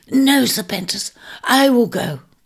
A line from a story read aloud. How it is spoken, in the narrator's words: cried Scorpio